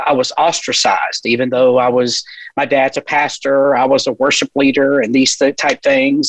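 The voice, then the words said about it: Mild Southern US accent. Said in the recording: “I am not from San Diego, California, as you may can tell. ... I have a little bit of an accent. ... being from the South”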